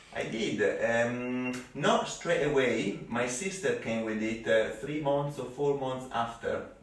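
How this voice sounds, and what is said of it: Strong foreign accent. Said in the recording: “why is it that you sound like you just got off the plane yesterday ... my trademark accent”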